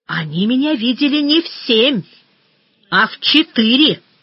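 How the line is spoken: Heated shout. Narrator (Russian): запальчиво крикнул Груздев

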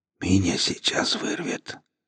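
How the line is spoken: Doubled-over whisper. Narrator (Russian): согнувшись пополам, прошептал Экс

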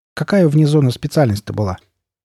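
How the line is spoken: Calm. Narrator (Russian): Андрей спокойно ответил

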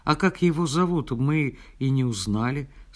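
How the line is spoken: Plain. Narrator (Russian): сказала Наташа

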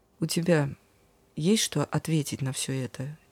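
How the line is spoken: Quiet question. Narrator (Russian): тихо спросил меня ангел-хранитель

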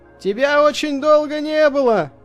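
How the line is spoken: Shouting over wind. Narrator (Russian): крикнул он сквозь ветер

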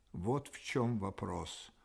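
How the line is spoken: Barely audible, deeply pensive. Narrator (Russian): произнес он едва слышно, весь погруженный в тяжелую задумчивость

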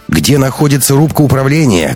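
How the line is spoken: Shouting. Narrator (Russian): крикнула Катарина

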